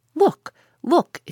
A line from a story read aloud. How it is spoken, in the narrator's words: exclaimed the Canadian